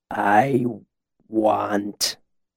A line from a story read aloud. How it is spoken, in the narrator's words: he began, his voice slow and thick